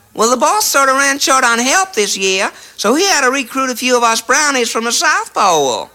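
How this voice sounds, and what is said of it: Put-on southern accent. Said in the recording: “a southern accent”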